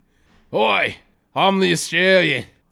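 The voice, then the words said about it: Put-on Australian accent. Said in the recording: “do your Australian voice”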